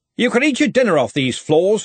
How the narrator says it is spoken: said Ridcully sharply

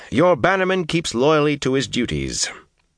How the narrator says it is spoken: said cheerfully

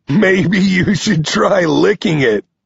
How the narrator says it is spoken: Nine laughs

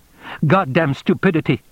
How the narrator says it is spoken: He said sharply

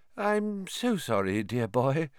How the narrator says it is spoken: she said dreamily

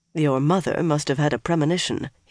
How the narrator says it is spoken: he murmured with a smile

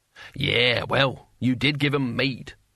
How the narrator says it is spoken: cackled

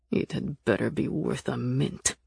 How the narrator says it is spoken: Nick growled

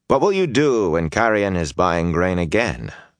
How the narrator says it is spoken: Rand said coolly

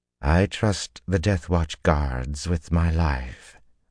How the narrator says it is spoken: the High Lady replied calmly

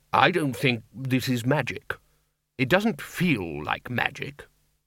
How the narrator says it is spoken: said the lecturer in recent runes, trying to keep his voice calm and relaxed

